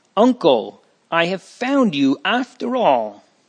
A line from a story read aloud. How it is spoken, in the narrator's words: exclaiming happily